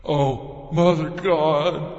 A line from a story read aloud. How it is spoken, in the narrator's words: I cried out